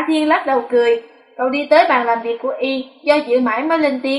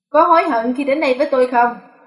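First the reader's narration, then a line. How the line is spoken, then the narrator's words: Tired but smiling. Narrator (Vietnamese): y có chút mệt mỏi, nhưng vẫn mỉm cười nói với Hạ Thiên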